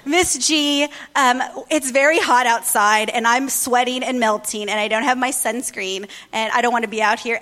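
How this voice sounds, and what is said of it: Sarcastic teenager impersonation. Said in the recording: “my best teenager impersonation ... they get very sarcastic”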